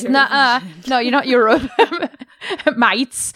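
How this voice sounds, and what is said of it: Bad put-on Australian accent. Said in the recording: “that was terrible Australian accent. That was no Australian accent.”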